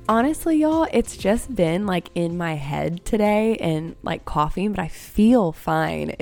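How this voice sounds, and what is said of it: Hoarse, recovering voice. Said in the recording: “my voice is almost back ... It's just my voice doesn't sound fine.”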